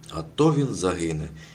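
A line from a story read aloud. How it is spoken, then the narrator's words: Exclamation. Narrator (Ukrainian): вигукнула Зіна Бебешка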